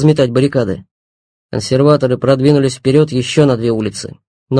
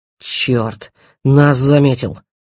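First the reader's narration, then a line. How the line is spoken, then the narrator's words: Mutter. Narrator (Russian): буркнул Павел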